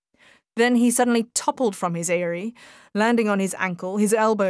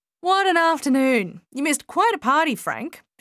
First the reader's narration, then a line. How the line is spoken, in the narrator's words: she called out to him